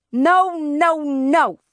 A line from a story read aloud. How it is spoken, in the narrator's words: Fudge shouted